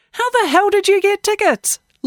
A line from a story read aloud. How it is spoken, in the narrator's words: Lacey Laugh shouted over the roar of the crowd